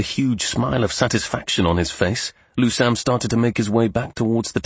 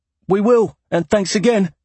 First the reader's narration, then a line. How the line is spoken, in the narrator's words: Lusam called out